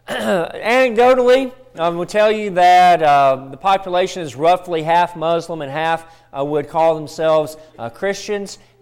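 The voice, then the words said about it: Southern American accent. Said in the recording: “a touch of my southern accent”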